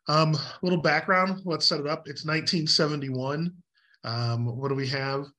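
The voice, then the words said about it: Hoarse, fading voice. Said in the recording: “My daughter has decided to share her viral illness with me, so I'm slowly losing my voice.”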